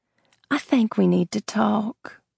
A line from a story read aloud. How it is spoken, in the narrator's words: sweetly drawled